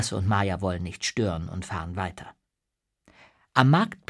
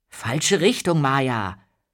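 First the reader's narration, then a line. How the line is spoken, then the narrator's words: Puzzled call after someone. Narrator (German): ruft Lasse verdutzt hinter ihr her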